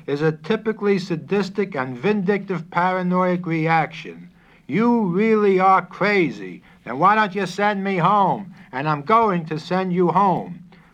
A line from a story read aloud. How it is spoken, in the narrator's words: shouted